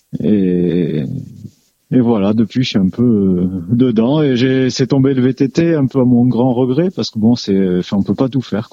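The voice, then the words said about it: Slight southern French accent. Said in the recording (French): “ce petit accent du sud”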